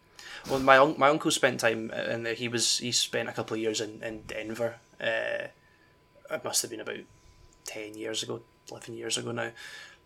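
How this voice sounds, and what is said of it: Scottish accent. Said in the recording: “I'm Scottish ... The accent alone”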